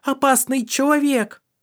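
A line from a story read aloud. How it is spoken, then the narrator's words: Terrified scream. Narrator (Russian): Суль, с полными дикого ужаса глазами, закричала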